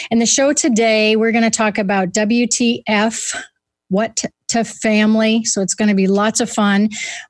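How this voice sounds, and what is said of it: Unwell, deep man-like voice. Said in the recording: “if I sound like a guy, it's because I don't feel like $1 million”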